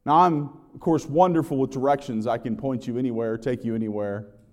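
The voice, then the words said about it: Sarcastic delivery. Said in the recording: “that was sarcasm”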